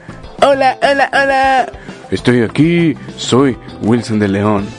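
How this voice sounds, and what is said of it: Imitates another person's voice. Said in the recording (Spanish): “casi, casi logro una buena imitación del amigo”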